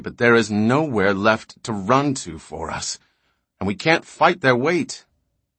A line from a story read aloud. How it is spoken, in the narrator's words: bitterly